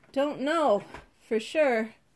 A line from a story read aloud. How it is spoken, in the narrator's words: panted